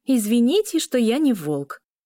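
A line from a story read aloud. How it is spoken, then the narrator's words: Snapping back. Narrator (Russian): огрызнулась Эля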